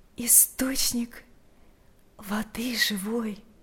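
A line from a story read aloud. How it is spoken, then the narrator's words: Quiet. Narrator (Russian): тихо произнесла Марфа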